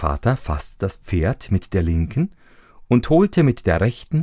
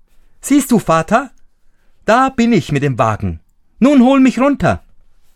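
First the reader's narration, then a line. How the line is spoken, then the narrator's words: Calling out to him. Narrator (German): rief er ihm zu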